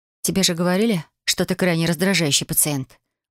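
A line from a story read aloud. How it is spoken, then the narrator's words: Muttering. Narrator (Russian): буркнул я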